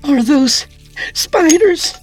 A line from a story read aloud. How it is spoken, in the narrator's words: Katrina cried